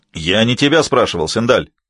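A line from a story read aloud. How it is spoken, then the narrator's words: Barked. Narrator (Russian): рявкнул Солис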